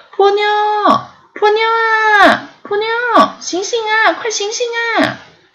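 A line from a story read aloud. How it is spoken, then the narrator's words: Frightened, frantic calling. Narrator (Chinese): 他吓了一跳，一边拼命的叫他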